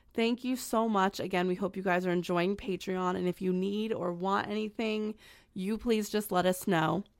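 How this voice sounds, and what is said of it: Hoarse, strained voice. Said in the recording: “I'm losing my voice because I gave lectures all day at school”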